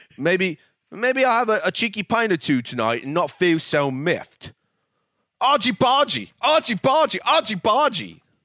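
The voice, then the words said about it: Very bad fake British accent. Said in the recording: “that is probably the worst British accent I've ever heard.”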